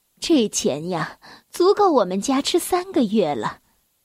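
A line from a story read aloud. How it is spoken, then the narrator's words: Sighing. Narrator (Chinese): 妈妈叹了口气说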